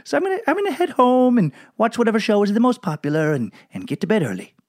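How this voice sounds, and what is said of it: Poor put-on Belgian accent. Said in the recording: “If you're from Belgium, I know that is a shit accent. I didn't even look up how someone from Belgium speaks. That was an accent unto itself. That person was from nowhere.”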